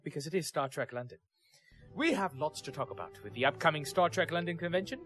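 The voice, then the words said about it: Put-on British accent. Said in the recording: “let me do this with a with a British accent, shall I?”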